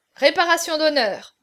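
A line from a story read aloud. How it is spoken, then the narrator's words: Cheerful exclamation. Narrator (French): s'écria gaiement Gonzague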